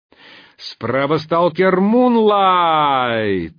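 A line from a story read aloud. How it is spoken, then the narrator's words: Howling loudspeaker. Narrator (Russian): взвыл динамик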